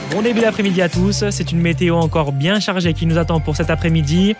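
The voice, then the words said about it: Southern French accent. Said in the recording (French): “le petit accent du sud”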